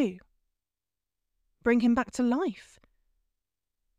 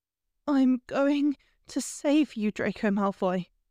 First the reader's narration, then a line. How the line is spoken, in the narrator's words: she said in a steady voice, because this time it was a promise